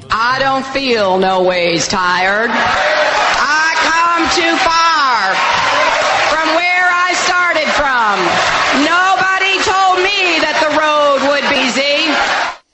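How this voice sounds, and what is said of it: Hillary Clinton, thick put-on Southern accent. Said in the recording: “She was channeling her inner Southern accent, black accent in this case ... using that thick accent”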